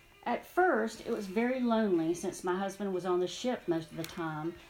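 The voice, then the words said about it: Southern American drawl. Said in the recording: “my Southern drawl”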